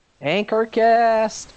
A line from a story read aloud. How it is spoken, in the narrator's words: I shouted to our captain